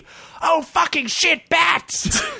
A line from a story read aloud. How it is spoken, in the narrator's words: shouted Guilford